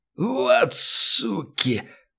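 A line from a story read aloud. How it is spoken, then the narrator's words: Hoarse rasp. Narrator (Russian): прохрипел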